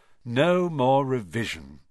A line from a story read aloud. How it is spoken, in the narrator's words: Ron sighed happily